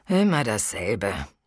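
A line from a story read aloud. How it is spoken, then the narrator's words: Sighing reply. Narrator (German): erwiderte Camille seufzend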